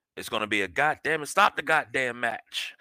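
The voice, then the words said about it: Imitates another person's voice. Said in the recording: “in my Jim Ross voice.”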